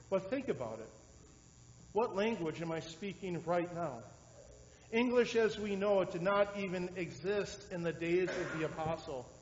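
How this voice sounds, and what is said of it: Wisconsin accent. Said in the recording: “I am now preaching to you in a weird Wisconsin accent”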